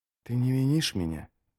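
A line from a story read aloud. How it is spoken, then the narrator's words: Whispered. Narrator (Russian): прошептал он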